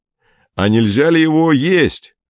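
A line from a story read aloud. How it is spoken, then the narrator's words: Shouted from a tent. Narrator (Russian): крикнул Фокин из палатки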